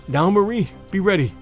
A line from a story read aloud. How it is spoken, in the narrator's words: I gasped